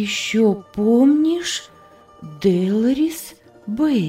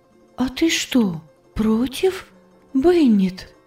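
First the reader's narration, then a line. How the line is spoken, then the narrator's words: Weak uncertain voice. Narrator (Russian): Голос Анны звучал слабо и неуверенно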